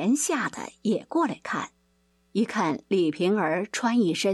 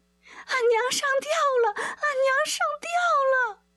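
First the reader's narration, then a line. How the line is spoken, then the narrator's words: Panicked shouting maids. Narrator (Chinese): 两个丫鬟吓慌了手脚，忙跑出来喊隔壁的春梅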